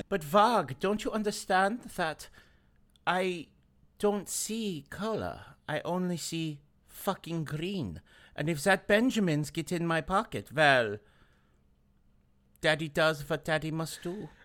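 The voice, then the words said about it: Put-on heavy German accent. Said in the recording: “Why'd you go full German accent?”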